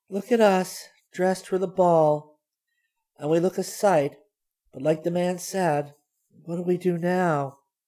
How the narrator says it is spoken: she sighed

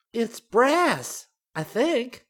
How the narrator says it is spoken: Sumiko cried

